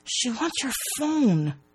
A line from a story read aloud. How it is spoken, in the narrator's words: Bree hisses